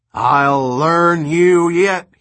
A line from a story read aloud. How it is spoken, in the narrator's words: roared